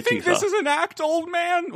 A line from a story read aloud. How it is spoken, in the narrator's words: Whiting yells through sobs